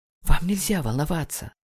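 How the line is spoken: Whispering. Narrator (Russian): шепнула М

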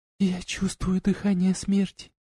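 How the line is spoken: Barely audible whisper. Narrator (Russian): едва слышно прошептала она

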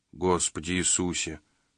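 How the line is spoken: Muttering. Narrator (Russian): пробормотал Джина

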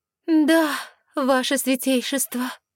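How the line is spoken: Mournful sigh. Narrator (Russian): скорбно вздохнула я

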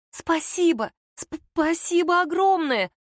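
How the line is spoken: Muffled, nearly stammering mutter. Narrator (Russian): Почти не заикаясь, пробормотала куда-то в шею

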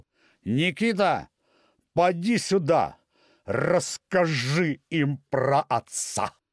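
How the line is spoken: Shouting across a hall. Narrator (Russian): крикнул через весь зал

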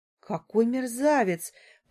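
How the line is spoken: Through gritted teeth. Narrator (Russian): произношу сквозь зубы

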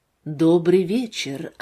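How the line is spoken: Low voice. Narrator (Russian): она произнесла эти слова низким голосом

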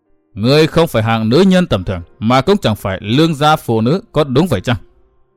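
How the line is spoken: Cold voice. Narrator (Vietnamese): Huyết kiếm lệnh chủ nói giọng lạnh lùng

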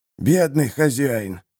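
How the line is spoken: Strained, forced out. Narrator (Russian): выдавил Доксет

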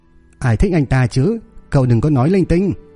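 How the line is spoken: Pleased yet shouting. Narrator (Vietnamese): Lưu Giao Giao tỏ vẻ vui mừng nhưng lại hét lớn

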